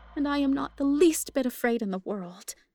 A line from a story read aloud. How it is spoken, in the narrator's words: I cried through hot tears